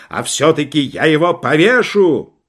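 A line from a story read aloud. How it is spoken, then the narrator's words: Yelling. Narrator (Russian): генерал вопил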